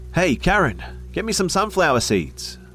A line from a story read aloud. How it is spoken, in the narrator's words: yelled